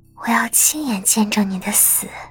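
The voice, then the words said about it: Quiet muttering to herself. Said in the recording (Chinese): “小声的自言自语”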